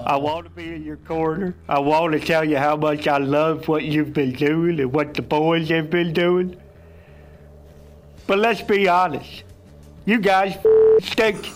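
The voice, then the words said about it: Impression of Dr. Lou. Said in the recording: “Oh, Dr. Lou. Great impression from the Pat McAfee Show.”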